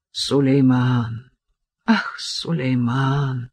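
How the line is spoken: Sigh. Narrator (Russian): вздохнул Селим

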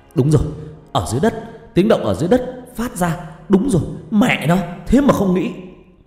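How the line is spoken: Shouting. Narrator (Vietnamese): Hùng hét lên

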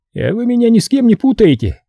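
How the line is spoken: Smirking grunt. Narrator (Russian): хмыкнул Лаптев

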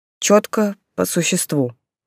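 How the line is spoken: Growling. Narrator (Russian): рыкнул он на горюющего Шурша

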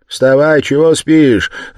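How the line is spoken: Woman shouting. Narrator (Russian): закричала она над ним

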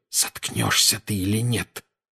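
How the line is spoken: Hissed. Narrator (Russian): прошипел Гарри

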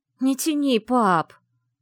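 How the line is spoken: Pleading. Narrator (Russian): Взмолилась Вивьен

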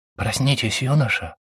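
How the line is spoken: Whisper. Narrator (Russian): прошептал он

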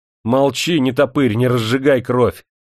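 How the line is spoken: Indignant shout. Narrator (Russian): возмущенно выкрикнул скрипач

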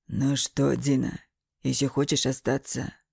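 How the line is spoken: Bitter, through gritted teeth. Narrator (Russian): Эмил желчно говорил сквозь зубы

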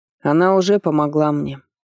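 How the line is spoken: Calm. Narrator (Russian): ответил царевич спокойно

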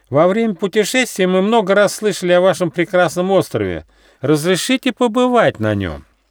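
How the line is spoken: Ringing shout. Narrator (Russian): звонко выкрикнул

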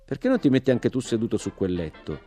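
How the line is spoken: Plain. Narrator (Italian): disse Jimmy

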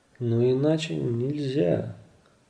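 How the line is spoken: Gentle, affectionate. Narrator (Russian): ласково сказал мистер Чиано

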